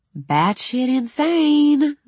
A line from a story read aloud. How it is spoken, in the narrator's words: the small part screamed